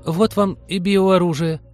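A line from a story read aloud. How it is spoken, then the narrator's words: Trembling voice. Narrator (Russian): дрогнувшим голосом сказала Полина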